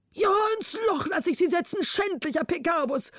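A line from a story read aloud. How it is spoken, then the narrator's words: Exhausted king calling. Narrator (German): rief der König erschöpft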